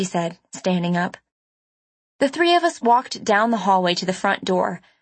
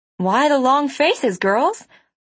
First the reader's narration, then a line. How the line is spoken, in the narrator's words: She asked cheerfully